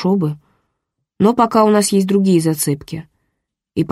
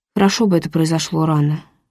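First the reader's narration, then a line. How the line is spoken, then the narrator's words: Sighed. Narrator (Russian): вздохнул Грегори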